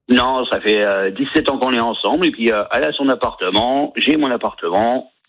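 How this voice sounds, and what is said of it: Slight regional French accent. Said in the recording (French): “avec un petit accent,”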